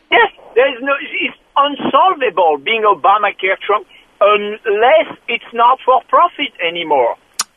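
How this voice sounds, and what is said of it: Obviously fake put-on accent. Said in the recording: “that totally fake accent”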